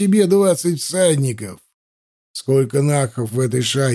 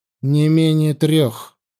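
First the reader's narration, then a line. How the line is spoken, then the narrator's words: Gloomy reply. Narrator (Russian): мрачно ответил Анил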